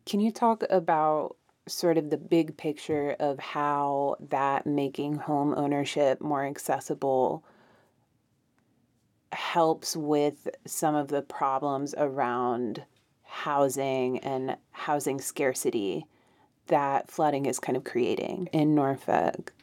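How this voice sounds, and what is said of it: Mountain regional accent, added R sounds. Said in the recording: “my like mountain accent. We just put R's in other places, like water”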